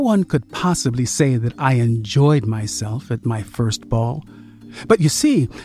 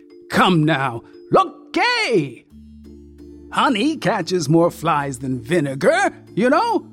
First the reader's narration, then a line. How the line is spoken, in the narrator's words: began to laugh